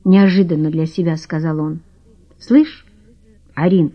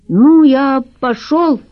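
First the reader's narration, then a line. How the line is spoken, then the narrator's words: Loud speech. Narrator (Russian): громко сказал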